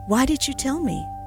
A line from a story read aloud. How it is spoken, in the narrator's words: Something in the kindly voice